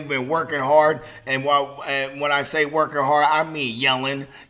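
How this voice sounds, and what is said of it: Extra raspy voice. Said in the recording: “Pardon my voice, it's a little extra raspy”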